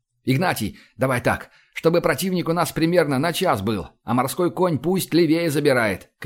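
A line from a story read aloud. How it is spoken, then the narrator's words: Shout. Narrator (Russian): крикнул я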